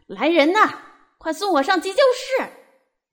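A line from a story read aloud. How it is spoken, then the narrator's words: Police chief shouting. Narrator (Chinese): 警察局长大叫着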